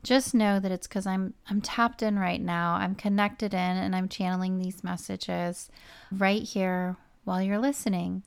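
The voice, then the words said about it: Subdued, quiet, monotone voice. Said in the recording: “my voice is a little subdued ... My voice gets a little quieter ... my voice seems a little quiet, a little monotone”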